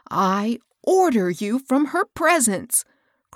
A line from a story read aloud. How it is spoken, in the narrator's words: cried Hilda, excitedly